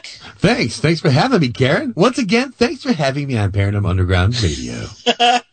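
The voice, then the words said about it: Polished radio announcer voice. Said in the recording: “You've got the radio voice down, dude.”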